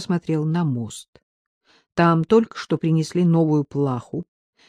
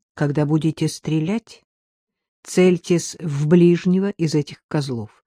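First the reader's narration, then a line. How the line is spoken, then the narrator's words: Plain. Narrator (Russian): сказал Артем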